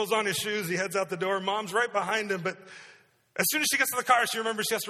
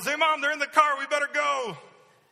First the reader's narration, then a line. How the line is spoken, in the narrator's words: yells